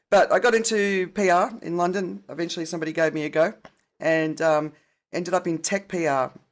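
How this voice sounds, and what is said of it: Softened Australian accent. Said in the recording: “I had a very strong country Australian accent, so it's softened over the years”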